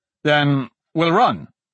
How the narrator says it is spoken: Dante said

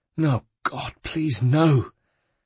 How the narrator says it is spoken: his words were choked in his throat, his loss overcoming all

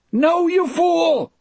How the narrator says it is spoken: Brutal yelled

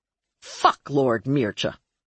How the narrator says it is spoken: Marlowe snarled

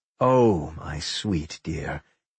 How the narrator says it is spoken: the speaker sighed

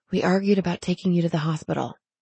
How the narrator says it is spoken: she whispered

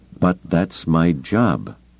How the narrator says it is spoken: she reminded herself firmly

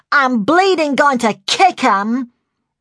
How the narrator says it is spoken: that familiar voice shouted

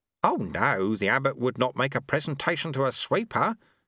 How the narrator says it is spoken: said Lobsang quickly

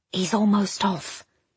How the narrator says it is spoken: he whispers

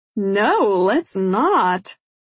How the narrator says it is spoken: Jenna says with a laugh

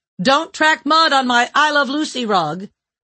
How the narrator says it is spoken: his wife shouted

